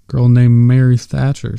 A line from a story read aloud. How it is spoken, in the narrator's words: Silva said cheerfully